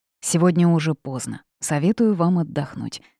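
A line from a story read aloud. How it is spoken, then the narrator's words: Plain. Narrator (Russian): сказал принц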